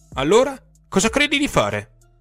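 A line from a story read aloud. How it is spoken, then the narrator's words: Furious exclamation. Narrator (Italian): esclamò lui, rosso in volto dalla rabbia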